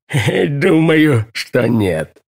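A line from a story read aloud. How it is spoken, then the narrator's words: Giggling speech. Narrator (Russian): хихикает и говорит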